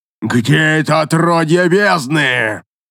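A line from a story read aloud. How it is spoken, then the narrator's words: Roaring at full voice. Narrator (Russian): проревел он во всю глотку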